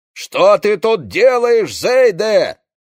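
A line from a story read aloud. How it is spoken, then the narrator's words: Shouting over engine roar. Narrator (Russian): закричал Одет, пересиливая рев двигателя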